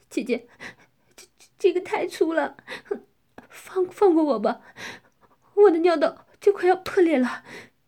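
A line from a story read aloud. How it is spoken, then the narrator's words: Crying. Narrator (Chinese): 我哭泣着说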